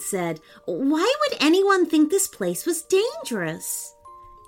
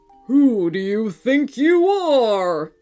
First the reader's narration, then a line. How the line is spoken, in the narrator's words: It bellowed